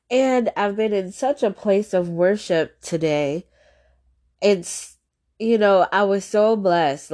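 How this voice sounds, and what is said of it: Stuffy, congested voice. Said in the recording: “I'm sorry if I sound stuffy. I think I'm experiencing a little bit of allergies.”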